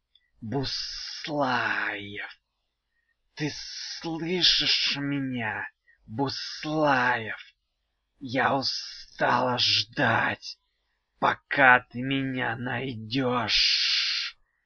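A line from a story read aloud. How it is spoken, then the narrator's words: Hiss from the ground. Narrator (Russian): прошипел голос у самой земли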